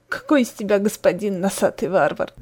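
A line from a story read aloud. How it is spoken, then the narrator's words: Sobbing. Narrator (Russian): всхлипнула Ли Ши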